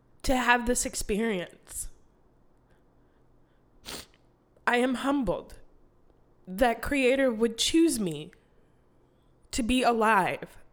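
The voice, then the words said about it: Choked up, emotional voice. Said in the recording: “bit choked up”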